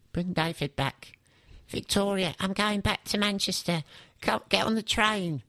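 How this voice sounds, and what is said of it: Imitates another person's voice. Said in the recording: “That's my Beckham impression”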